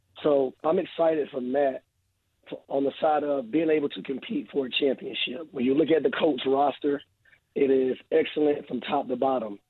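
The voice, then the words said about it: Hoarse, strained voice. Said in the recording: “excuse my voice, y'all, because I kind of lost my voice”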